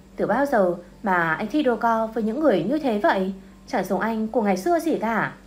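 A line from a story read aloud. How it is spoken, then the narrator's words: Disappointed sigh. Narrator (Vietnamese): tôi thấy anh ta đôi co với một người như vậy thì cũng thở dài và cảm giảm bảo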